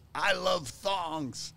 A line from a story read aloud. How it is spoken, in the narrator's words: yells